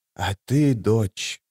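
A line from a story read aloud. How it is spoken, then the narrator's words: Quiet feverish question. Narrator (Russian): спросила Мхиби тихим лихорадочным голосом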